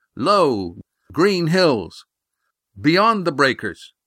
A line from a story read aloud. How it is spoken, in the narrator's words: He broke his message into sections to shout it down over the curved belly of the sail